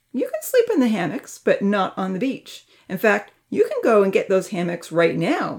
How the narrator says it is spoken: Uncle Louis stated firmly

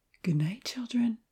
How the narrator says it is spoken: Evan whispered

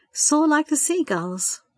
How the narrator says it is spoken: Sandra mused happily to herself

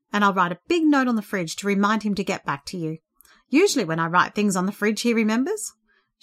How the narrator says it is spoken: laughed

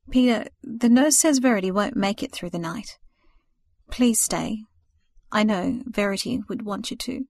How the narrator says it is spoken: she said to him hesitantly, sorrow in every line of her face

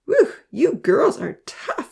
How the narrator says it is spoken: he howled

